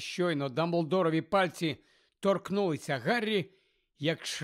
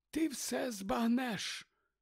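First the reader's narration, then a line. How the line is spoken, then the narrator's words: Whispered. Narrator (Ukrainian): прошепотів Дамблдор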